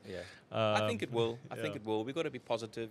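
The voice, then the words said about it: Cape Town South African accent. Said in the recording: “my accent is still very Cape Townian. I haven't even lost it”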